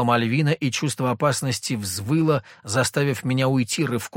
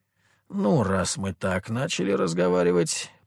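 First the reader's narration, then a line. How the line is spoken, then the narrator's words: Mutter. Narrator (Russian): пробормотал я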